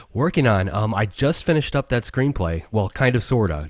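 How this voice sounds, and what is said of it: Hoarse, fading voice. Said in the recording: “my voice is going”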